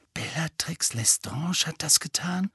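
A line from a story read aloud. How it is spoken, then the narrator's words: Horrified whisper. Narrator (German): flüsterte Hermine entsetzt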